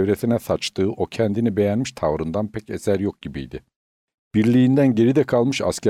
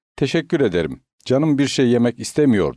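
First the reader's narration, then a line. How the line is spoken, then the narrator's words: Angry. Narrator (Turkish): diyor büyük bir öfkeyle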